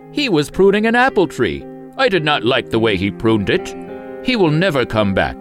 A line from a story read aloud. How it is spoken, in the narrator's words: the king laughed and said